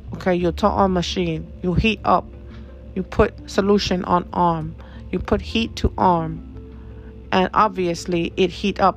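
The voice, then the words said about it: Imitated Filipino accent. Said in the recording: “what sounds like a Filipino. I'm not really sure of the accent”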